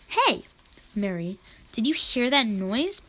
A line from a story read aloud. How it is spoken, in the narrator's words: Eliezer exclaimed